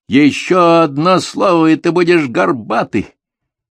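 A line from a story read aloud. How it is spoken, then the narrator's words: Yelled. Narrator (Russian): Я завопил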